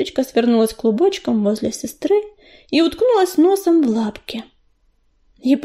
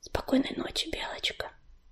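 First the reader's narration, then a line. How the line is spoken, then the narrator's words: Whisper. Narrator (Russian): прошептала Листочка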